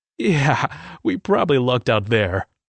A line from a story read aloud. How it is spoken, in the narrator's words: I chuckled